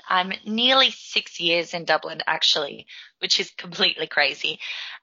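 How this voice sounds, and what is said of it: Australian accent. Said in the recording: “I am a Melbourne born Aussie, in case it wasn't immediately apparent from the accent”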